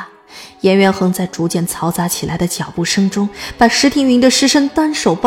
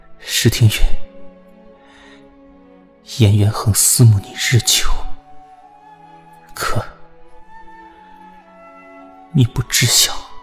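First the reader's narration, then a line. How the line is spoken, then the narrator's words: Whispered in ear. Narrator (Chinese): 颜渊恒附耳低声道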